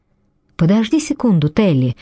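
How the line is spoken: Slightly anxious woman. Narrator (Russian): сказала женщина чуть встревоженным голосом

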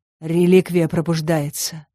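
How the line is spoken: Doomed moan. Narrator (Russian): обреченно простонал Коул

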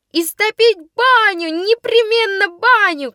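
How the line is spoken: Shouting voices. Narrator (Russian): кричали в другом

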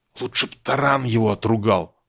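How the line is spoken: Whisper. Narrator (Russian): шепнула Аврора приятелю

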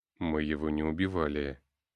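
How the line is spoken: Calm. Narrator (Russian): спокойно ответил предводитель центровых

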